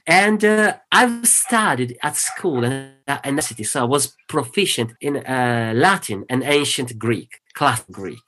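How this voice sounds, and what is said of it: Thick Italian accent in English. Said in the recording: “My native language is Italian. I speak English the way I do, so very broken sometimes and with a thick accent”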